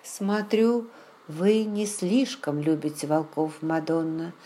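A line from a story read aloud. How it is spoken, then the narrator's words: Plain. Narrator (Russian): спросил Раймон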